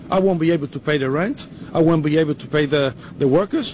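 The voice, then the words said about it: Man with a noticeable accent. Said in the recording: “this gentleman has an accent”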